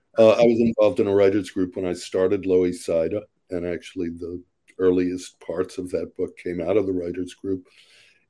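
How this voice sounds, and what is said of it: Congested, stuffy voice. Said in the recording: “I have a cold.”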